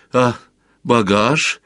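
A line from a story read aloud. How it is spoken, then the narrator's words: Timid question. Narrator (Russian): робко поинтересовался Сварог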